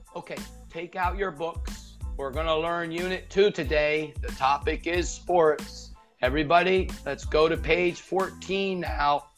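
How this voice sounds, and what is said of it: Flat, robotic lecturer delivery. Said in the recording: “talk like a lecturer ... You would sound like a robot”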